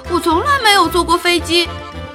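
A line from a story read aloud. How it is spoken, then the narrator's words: Shouting. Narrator (Chinese): 小老鼠喊道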